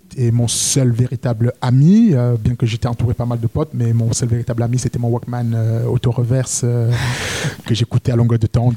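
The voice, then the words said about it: Very strong regional French accent. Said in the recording (French): “J'avais un accent à couper au couteau que j'ai gardé”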